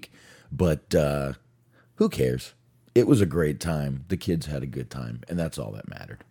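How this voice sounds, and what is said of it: Slightly scratchy voice. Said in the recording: “my voice is still a little scratchy from the week”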